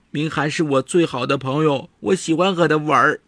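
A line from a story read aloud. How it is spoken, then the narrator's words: Crying child. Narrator (Chinese): 王聪杰哭着跟奶奶说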